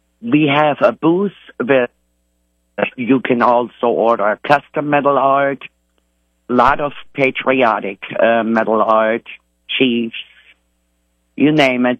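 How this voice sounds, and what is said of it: German accent. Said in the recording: “Bavaria, Germany ... In Germany. So you got that nice accent there.”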